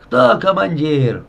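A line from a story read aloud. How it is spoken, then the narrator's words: Yelling. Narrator (Russian): на младшего лейтенанта Глебова орал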